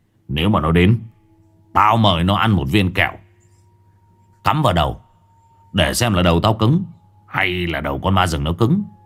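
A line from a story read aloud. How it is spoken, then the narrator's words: Cold. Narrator (Vietnamese): Lâm Đen lạnh lùng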